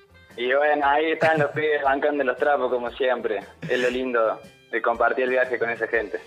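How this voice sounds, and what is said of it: Cordoba Argentine Spanish accent. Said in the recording (Spanish): “vamos a la tonada cordobesa que hacía mucho que no escuchábamos ... como querías esa tonada?”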